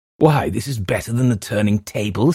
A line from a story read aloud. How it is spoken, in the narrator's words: said I with a half laugh